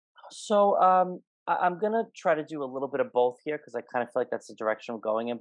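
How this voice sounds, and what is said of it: Fast-talking New York speech. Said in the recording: “if I'm talking too fast ... I'm from New York, so I'm like a mile a minute”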